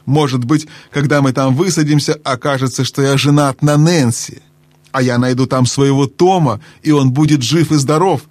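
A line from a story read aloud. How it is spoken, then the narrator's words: Plain. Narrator (Russian): сказал другой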